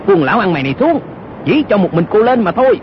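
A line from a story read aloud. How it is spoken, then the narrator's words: Shout. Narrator (Vietnamese): Âu Dương Cát y quát lên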